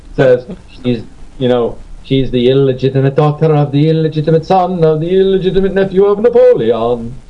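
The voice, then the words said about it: Exaggerated Pepe Le Pew French accent. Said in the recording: “a horrible. By the way, a horrible Pepe Le Pew like French accent.”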